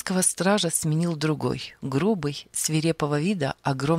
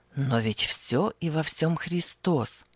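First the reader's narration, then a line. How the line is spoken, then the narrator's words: Quiet, moved. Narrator (Russian): тихо произнес Павел, взволнованный этой вестью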